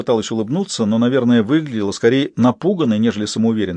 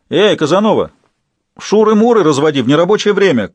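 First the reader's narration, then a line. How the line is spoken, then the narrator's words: Shouted from behind. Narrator (Russian): крикнул кто-то сзади очереди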